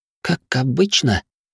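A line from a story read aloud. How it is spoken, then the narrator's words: Quiet, apologetic. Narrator (Russian): словно извиняясь, тихо спросила Сурия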